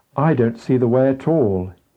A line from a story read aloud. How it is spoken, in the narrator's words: exclaimed